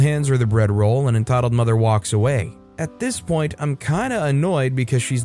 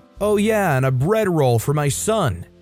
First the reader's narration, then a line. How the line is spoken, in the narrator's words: shouts over